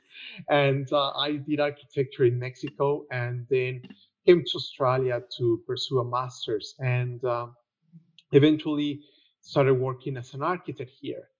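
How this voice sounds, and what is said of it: Mexican accent in English. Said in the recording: “I'm Mexican. That will explain a lot of things, including my accent.”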